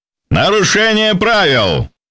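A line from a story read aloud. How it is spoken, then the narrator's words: Host shouting. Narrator (Russian): прокричал ведущий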